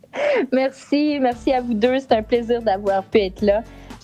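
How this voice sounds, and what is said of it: Québécois French accent. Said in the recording (French): “ton accent québécois”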